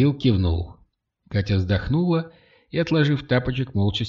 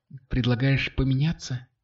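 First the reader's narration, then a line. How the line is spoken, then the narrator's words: Quiet question, girl. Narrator (Russian): тихо спросила девушка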